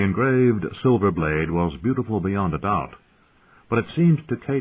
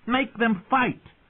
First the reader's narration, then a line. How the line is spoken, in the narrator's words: Lord Robert called out